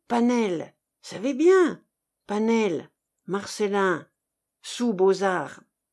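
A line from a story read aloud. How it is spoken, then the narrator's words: Rough throaty mumble. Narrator (French): ces mots bredouillés du fond de sa gorge raboteuse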